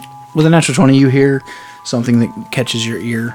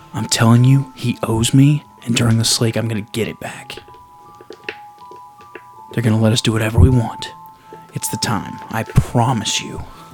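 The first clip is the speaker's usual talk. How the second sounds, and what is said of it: Loud, vehement would-be whisper. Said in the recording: “Someone thinks they're whispering, but they're passionate and they're a little bit vehement.”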